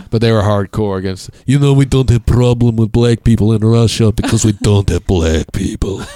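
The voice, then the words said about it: Stereotypical Russian accent. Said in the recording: “That's the most stereotypical accent I've ever heard.”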